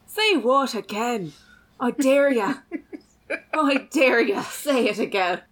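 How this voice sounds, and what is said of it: Samuel L. Jackson in Irish accent. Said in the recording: “I want to see Samuel Jackson do an Irish accent. ... Oh, that would be horrific.”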